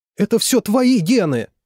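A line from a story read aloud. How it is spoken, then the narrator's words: Shout. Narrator (Russian): крикнула она Анатолию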